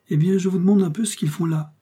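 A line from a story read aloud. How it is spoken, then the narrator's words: Prince exclaiming. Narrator (French): s'écria le prince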